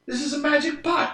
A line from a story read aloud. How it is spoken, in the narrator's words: cried the innkeeper